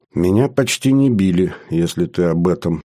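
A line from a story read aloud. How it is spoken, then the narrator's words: Sad. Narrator (Russian): грустно сказала Света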